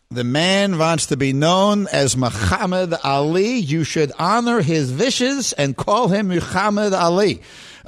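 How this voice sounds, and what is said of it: Impression of Coming to America barbershop scene. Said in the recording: “who are you imitating there? ... It's from an Eddie Murphy movie called Coming to America. ... The barbershop scene.”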